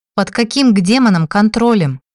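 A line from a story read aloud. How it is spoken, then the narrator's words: Indignant blurt. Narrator (Russian): выпалила я, возмущенно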